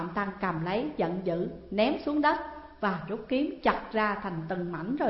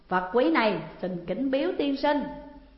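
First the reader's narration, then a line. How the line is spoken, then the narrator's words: Delighted, laughing. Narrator (Vietnamese): Hạng Vũ Thích Chí cứ cười lớn rồi nói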